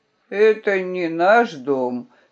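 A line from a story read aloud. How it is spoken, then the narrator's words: Sleepy reply. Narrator (Russian): сонно ответил он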